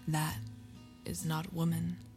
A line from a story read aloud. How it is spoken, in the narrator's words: said McFarlane in a hushed voice